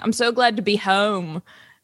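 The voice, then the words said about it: Put-on Philadelphia accent. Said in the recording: “I can't stop doing a Philly accent.”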